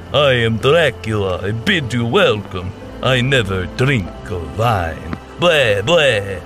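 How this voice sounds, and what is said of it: Put-on Romanian accent, Dracula voice. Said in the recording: “put on a Romanian accent”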